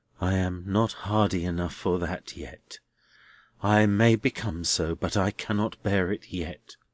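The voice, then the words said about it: Lowered, quiet voice. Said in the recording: “Neville drooped suddenly as he replied in a lowered voice”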